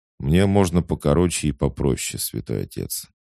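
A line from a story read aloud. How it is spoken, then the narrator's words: Cold, smiling. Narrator (Russian): холодно улыбнулся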